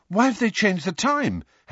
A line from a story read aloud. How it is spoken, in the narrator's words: said breathlessly as they hurtled past